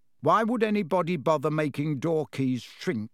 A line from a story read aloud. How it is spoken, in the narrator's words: said George